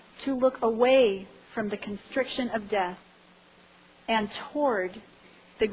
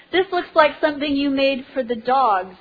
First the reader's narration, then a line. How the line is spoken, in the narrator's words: yelled, with a few obscenities thrown in